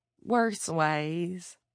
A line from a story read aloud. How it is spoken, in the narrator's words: Garth said, but his voice was faint